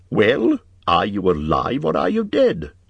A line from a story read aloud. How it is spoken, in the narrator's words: asked Bilbo quite crossly